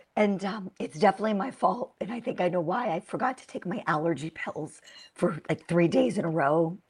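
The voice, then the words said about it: Hoarse, strained voice. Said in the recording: “forgive my voice. I woke up with laryngitis”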